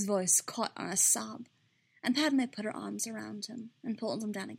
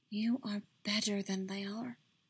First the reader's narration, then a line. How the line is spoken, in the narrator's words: she whispered into his hair